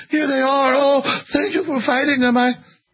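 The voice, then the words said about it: Poor put-on German accent. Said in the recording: “I'm not doing a good German accent.”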